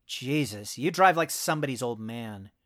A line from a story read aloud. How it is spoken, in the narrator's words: grumbled